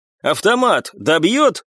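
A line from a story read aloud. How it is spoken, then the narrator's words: Doubtful shout, muffled by roar. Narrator (Russian): с сомнением крикнул Николай, которого было плохо слышно из-за усилившегося гула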